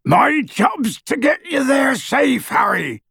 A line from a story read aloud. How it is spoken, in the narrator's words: bellowed Hagrid